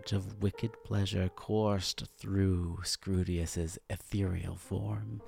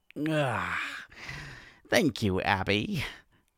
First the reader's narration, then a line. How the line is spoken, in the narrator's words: Scrutius groaned